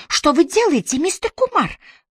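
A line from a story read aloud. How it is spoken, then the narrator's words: Hurried exclamation. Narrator (Russian): Миссис Керси хватило времени воскликнуть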